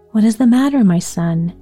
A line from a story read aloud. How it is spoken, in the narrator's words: he asked anxiously